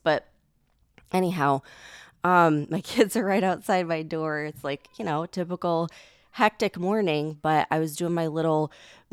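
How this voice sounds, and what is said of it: Congested, groggy sick voice. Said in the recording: “I don't know if you could tell from my voice. You'll probably be able to tell throughout the podcast, but I am sick. I'm congested ... they leave you kind of groggy”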